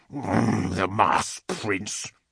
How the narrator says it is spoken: Lahior said in a growl

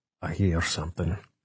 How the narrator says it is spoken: he said quietly

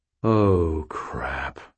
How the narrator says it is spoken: I breathed

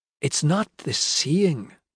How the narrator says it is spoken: Pie said softly

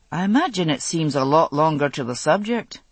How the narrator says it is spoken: Jamie said dryly

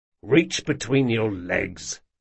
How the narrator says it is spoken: growled Jean

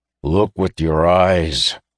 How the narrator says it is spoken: he growled

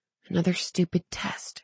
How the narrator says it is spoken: she muttered

